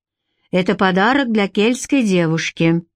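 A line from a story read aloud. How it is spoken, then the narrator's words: Gloomy grumble, chief. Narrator (Russian): мрачно проворчал вождь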